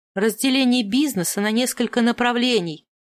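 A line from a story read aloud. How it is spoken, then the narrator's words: Irritated repetition. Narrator (Russian): раздраженно повторила я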